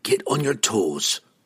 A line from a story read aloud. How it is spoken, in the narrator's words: Brunner whispered to them both